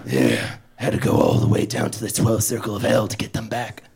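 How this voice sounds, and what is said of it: Rotted, raspy dead man voice. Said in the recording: “I have to talk like a dead man. Vocal cords rotted after a couple hundred years.”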